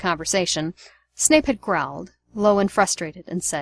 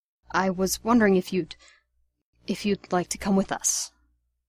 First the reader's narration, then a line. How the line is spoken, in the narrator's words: whispered